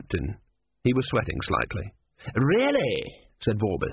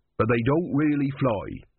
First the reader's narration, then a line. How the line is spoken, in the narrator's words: he added quickly